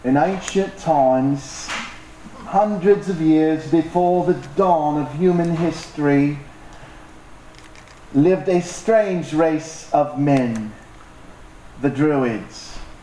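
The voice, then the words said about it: Put-on aging British rock star accent. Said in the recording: “I'm going to do my best aging British rock star accent, which is really good, by the way.”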